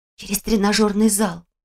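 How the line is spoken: Whisper. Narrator (Russian): шепнула

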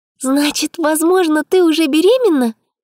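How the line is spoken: Excited blurt. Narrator (Russian): взволнованно выдала подруга

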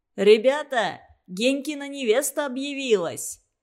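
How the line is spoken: Cheerful shout. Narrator (Russian): весело крикнул трубач

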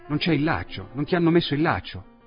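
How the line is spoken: Exclaimed. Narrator (Italian): Il dottore esclamò

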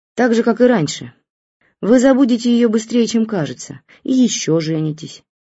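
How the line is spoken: Plain. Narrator (Russian): сказала моя мама

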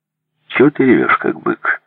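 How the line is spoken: Calm. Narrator (Russian): сказал он спокойно

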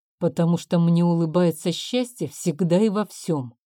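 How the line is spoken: Plain. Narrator (Russian): ответил

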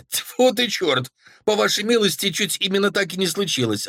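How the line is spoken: Snapping. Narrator (Russian): огрызнулась она

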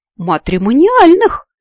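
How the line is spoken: Joyful exclamation. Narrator (Russian): радостно воскликнул он

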